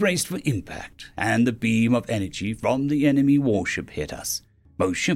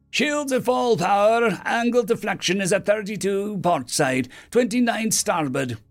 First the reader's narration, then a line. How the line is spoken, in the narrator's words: the engineer barked